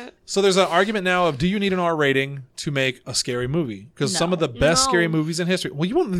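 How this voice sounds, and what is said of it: Usual voice. Nothing is said of it.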